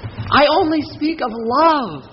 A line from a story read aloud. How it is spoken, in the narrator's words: I cried